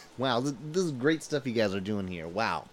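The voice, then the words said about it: Poor imitation of another person's voice. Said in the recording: “my worst impression I've ever done. I haven't watched enough MASH to really get it down.”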